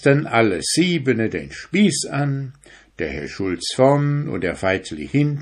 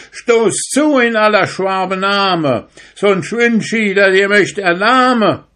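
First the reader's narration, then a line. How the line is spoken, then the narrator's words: Brave calling out. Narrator (German): war hinten ganz mutig geworden, rief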